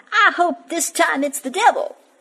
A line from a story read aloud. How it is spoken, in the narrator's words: she was so fed up and angry about this that she cried out